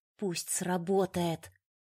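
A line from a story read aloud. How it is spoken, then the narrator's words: Trembling, whispered plea. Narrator (Russian): Дрожа от напряжения, зашептала заветные слова и взмолилась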